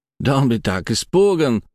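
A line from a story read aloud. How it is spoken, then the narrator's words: Exclamation. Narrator (Russian): воскликнул он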